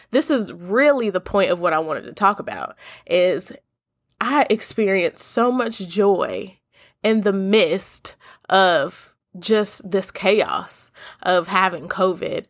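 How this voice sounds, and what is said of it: Congested, stuffy-sounding voice. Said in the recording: “I know y'all can probably tell by the way I sound. I sound congested ... it's just a little lingering breathing issues”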